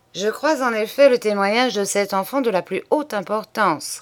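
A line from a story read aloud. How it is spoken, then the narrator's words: Plain. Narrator (French): répondit monsieur Daburon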